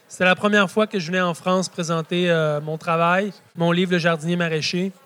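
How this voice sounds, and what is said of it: Speaks with a noticeable accent. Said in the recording (French): “j'ai un accent. Il va falloir faire avec.”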